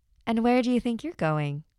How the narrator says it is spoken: said

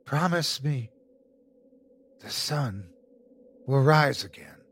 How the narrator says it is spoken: as if someone else was speaking through him, he whispered unknowingly

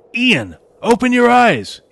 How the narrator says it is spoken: He shouted into the wind

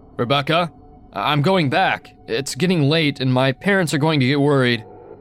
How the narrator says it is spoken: I was getting scared, so I called out

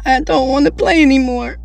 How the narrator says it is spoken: said with a sob

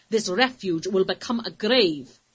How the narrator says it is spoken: he replied sternly

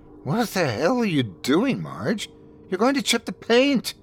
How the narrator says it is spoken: exclaimed, despite myself

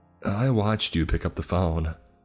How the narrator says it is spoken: he said

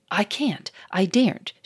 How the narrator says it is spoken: she exclaimed

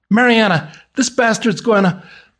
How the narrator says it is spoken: hear John holler

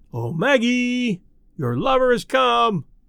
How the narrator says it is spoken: Some wag in the bleachers yelled into the silence

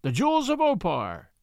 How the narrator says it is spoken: cried Tarzan

